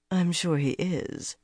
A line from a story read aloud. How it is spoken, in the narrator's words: she murmured